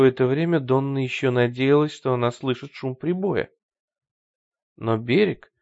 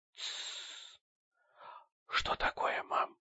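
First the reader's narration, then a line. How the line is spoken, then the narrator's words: Whispered. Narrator (Russian): прошептала Сэнди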